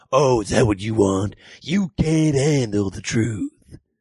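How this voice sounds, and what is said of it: Angry shouting impression of another's voice. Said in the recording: “doing a Jack Nicholson impression so I had an excuse to scream at him. Because you can be very angry doing a Jack Nicholson impression”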